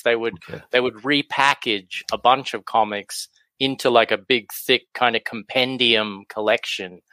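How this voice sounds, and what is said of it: Australian accent. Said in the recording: “you can probably tell from my accent, I'm from Australia”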